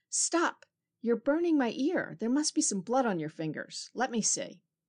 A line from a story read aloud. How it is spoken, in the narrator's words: he cried out